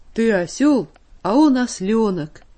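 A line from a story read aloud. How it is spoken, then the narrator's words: Booming wild bass. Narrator (Russian): диким басом загудел на весь цирк Андрюша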